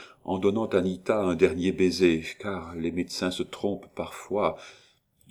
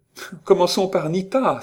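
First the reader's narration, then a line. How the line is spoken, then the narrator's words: Exclaimed. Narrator (French): s'écria Marguerite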